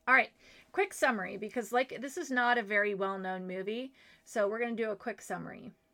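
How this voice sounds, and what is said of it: Slightly raspy voice. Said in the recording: “I can tell my voice is there's a little bit of a rasp”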